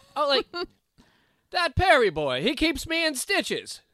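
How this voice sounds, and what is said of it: Put-on mid-Atlantic 1940s accent. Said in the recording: “this is like 40s talk ... if you would have read it with a mid-Atlantic accent.”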